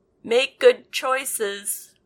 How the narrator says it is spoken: Rosalind shouted

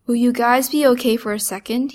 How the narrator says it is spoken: he says

